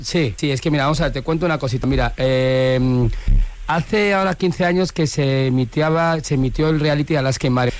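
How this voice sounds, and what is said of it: Valencian Spanish accent. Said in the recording (Spanish): “habla todo el rato con acento valenciano.”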